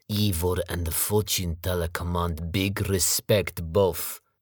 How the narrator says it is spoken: Vasily growled at Sergey

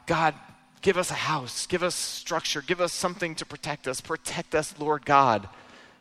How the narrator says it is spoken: the family in Juarez living in a cardboard box who had cried out to God

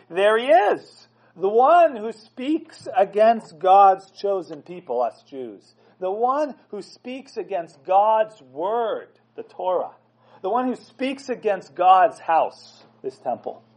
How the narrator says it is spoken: they yell

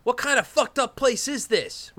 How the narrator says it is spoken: Ripper yells

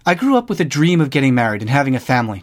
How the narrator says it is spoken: Jeff said

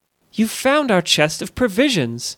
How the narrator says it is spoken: exclaimed Elissa, overjoyed

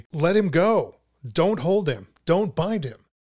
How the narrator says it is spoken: the chorus then interjects rather dramatically

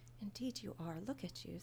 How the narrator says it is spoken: Sarah tisked gently

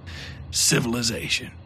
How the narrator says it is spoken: muttered under his breath

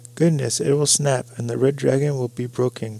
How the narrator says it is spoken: cried Jess in alarm

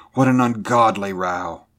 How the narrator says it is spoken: exclaimed

